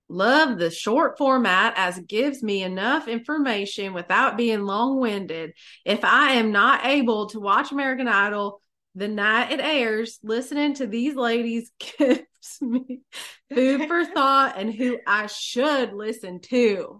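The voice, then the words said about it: Reads aloud in a put-on accent. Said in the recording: “read in an accent”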